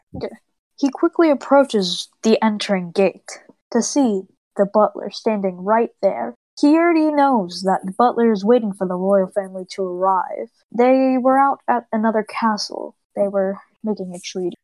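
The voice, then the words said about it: Storytelling in a weird voice. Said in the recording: “Do you have to tell it in this, like, weird voice? ... I'll be a little more subtle.”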